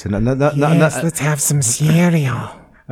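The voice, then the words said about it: Bad Peter Lorre impression. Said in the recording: “he sounds like Peter Lorre... Another bad impression”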